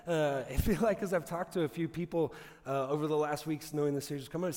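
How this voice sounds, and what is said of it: Slightly raspy voice. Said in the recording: “apologize for my voice. I've been fighting a cold or allergies or something all week, and so I know it's a little raspy”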